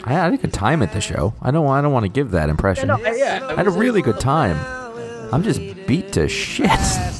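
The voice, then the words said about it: Hoarse, worn-out voice. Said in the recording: “I still don't have my voice back.”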